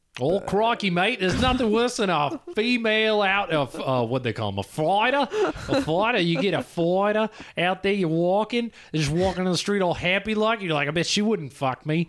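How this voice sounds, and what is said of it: Good put-on Australian accent. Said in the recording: “Australian accent ... This is a really good Australian accent.”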